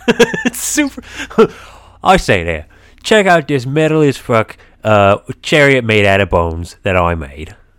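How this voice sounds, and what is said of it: Michael Caine impression accent. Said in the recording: “you're really into that accent ... it just goes into Michael Caine”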